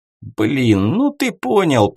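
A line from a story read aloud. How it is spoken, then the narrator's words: Grumbling mutter. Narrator (Russian): пробурчал Вась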